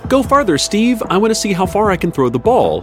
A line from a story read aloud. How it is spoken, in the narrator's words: She shouts